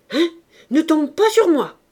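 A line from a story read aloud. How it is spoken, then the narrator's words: Shouted. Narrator (French): cria-t-elle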